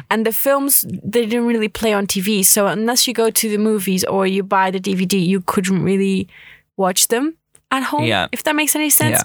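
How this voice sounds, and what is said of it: Portuguese accent. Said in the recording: “you're from Portugal, aren't you? ... hence the beautiful accent”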